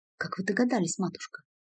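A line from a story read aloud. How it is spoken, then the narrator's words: Embarrassed whisper. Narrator (Russian): смутившись, прошептала Ремика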